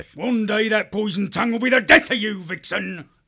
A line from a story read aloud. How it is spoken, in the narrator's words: The foxwolf snarled dangerously